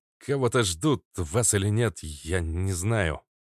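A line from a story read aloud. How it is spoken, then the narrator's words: Nervous young man mumbling. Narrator (Russian): промямлил парень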